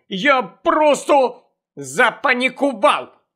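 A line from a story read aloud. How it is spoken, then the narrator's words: Angry snap. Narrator (Ukrainian): сердито кинула Джинні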